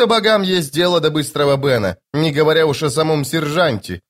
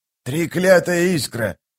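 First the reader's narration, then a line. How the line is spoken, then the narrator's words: Hissing. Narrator (Russian): прошипел он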